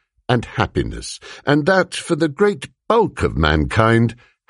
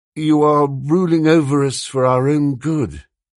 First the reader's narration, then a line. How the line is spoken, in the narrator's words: he said feebly